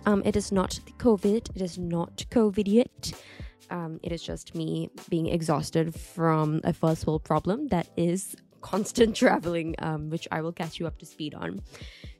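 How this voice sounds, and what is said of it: Slightly nasal, congested voice. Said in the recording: “my voice sounds a little bit nasally because I'm a little bit sick”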